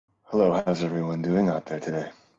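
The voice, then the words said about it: Exaggerated sexy voice. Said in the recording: “doing a sexy voice”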